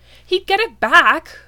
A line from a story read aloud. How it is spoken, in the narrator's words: Rodney exclaimed